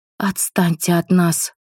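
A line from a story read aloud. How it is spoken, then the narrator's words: Hiss. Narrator (Russian): прошипела женщина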